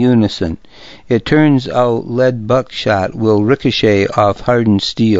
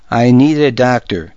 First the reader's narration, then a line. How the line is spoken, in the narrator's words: the shooter exclaimed